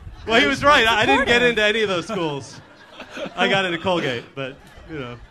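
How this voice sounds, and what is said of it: Usual voice. Nothing is said of it.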